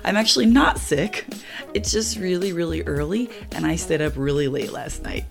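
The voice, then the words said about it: Slightly raspy, groggy voice. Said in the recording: “why my voice is a little bit raspy... I'm just a little bit groggy”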